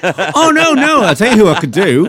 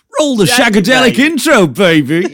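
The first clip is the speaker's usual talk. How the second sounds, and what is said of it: Austin Powers character impression. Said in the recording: “your Austin Powers has become like a feature.”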